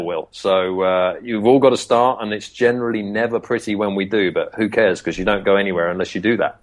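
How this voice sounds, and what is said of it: British accent, good radio voice. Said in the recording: “you have naturally a good radio voice. I don't know if it's a UK thing. You guys just kill us in sounding cool.”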